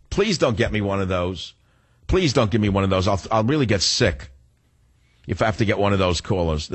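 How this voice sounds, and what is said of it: New York accent. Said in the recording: “I have a New York accent”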